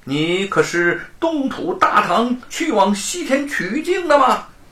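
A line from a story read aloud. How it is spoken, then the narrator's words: Surprised, wondering question. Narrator (Chinese): 唐三藏又惊又奇，走到美猴王的近前问道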